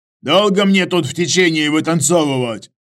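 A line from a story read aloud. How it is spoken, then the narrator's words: Barking. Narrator (Russian): почему-то рявкнул Иваныч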